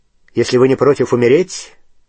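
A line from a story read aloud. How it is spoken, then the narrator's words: Sharp question. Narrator (Russian): резко спросил Снег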